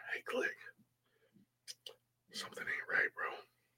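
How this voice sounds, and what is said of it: Whispered voice. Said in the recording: “my gut starts talking in a whisper.”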